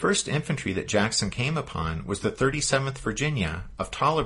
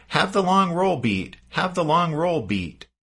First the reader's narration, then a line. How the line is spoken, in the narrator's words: galloped off, shouted